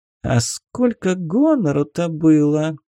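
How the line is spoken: Snide, audible whisper. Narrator (Russian): ехидно прошептала себе под нос Луна, но так, чтобы Оторва ее услышала

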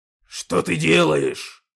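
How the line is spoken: Growling. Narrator (Russian): прорычал Когтеклык

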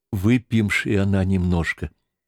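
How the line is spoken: Trembling voice. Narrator (Russian): говоря дрожащим голосом

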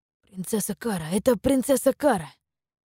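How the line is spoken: Whispering. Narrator (Russian): зашептались они

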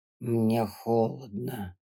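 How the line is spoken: Hoarse rasp. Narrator (Russian): прохрипел он

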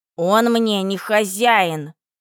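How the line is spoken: Shout. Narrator (Russian): Еринка тоже закричала

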